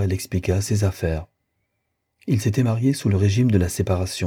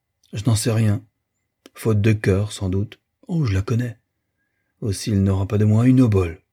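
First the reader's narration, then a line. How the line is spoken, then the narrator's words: Curt, dry tone. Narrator (French): Madame d'Ambreuse le considéra, puis, d'un ton sec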